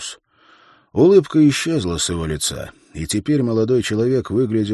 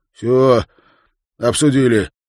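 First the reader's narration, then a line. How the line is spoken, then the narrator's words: Forced out through blood. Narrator (Russian): выдавил Нильс из себя сквозь шедшую изо рта и носа кровь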